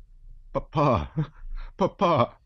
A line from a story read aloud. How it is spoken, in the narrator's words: he called after him, sobbing